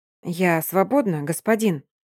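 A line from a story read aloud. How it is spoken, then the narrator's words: Timid question. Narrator (Russian): робко спрашивает Агна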